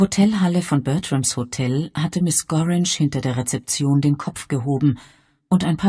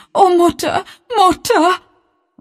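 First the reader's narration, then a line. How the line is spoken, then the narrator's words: Sobbing. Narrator (German): warf sie sich schluchzend in Bess Sedgwicks Arme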